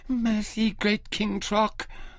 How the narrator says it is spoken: the girl pleaded in that honey-sweet voice

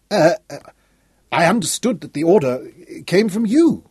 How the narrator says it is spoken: stammered Dickie

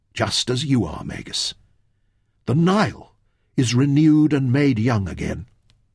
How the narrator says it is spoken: Fenn whispered

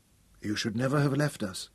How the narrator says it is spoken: Tom told her softly

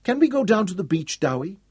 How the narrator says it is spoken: Yasmini pleaded

